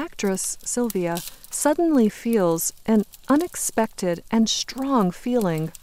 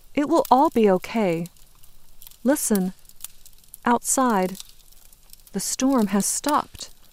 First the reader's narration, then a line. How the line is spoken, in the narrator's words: Hope says in a calm, clear voice